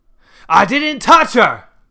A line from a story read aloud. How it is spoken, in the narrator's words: Grandpa hollered